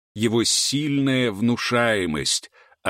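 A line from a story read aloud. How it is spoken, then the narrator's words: Deep vibrating otherworldly voice. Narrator (Russian): ответил хранитель глубоким вибрирующим голосом, который, казалось, доносился прямо из космоса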